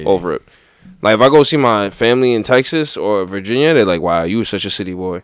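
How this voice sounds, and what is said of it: Strong New York accent. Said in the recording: “my accent's strong. Ain't nobody confusing where I'm from. Yeah, they know I'm from New York.”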